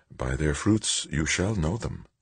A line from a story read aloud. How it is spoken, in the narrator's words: murmured